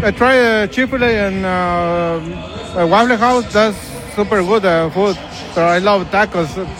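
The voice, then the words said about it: Speaks with a foreign accent. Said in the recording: “He does have a very quintessential accent”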